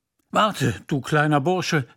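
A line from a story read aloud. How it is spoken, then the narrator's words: Calling out. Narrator (German): rief er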